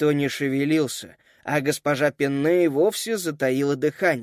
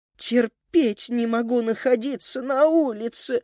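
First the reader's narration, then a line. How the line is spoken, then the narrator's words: Whining. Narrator (Russian): захныкала Эленора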